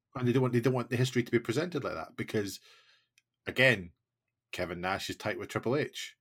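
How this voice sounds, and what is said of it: Usual voice. Nothing is said of it.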